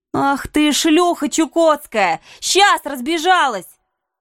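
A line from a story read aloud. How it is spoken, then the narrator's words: Shouting. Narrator (Russian): закричала я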